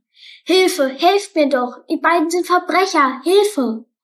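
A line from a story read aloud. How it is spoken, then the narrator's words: Shouting at full volume. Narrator (German): rief so laut er konnte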